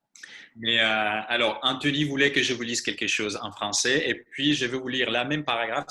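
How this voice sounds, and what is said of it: French spoken with a foreign accent. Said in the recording (French): “je n'aime pas la façon dont je lis euh, en français, donc veuillez, excuser encore mon accent.”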